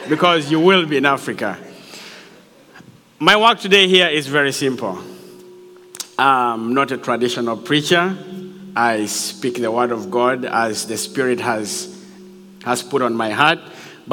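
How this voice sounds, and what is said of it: African accent. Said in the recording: “I have an accent ... Originally, I'm from Africa, and my accent is a little bit, you know.”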